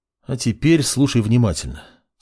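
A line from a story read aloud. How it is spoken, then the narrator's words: Calm. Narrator (Russian): спокойным голосом произнес маг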